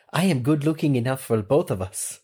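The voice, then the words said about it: Put-on French accent. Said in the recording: “I'm not confident in my French accent”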